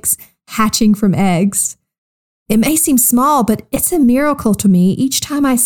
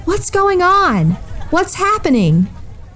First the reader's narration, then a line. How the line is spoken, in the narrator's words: Bartimaeus couldn't see what was happening, so he cried out